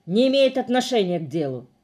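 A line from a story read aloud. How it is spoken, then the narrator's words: Barking. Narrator (Russian): рявкнул он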